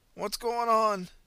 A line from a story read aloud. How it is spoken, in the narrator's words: he managed to croak